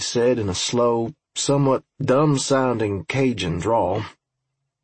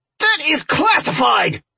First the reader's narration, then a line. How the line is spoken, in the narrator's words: Robinson shrieked